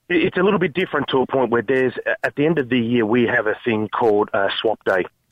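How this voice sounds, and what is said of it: Australian accent. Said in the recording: “I detected the Aussie accent. I also had you pinned to Victoria”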